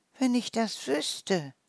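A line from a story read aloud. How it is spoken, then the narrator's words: Sighing mouse. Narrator (German): die Maus seufzte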